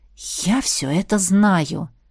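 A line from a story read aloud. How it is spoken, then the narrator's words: Impatient exhale. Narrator (Russian): нетерпеливо выдохнул Виконт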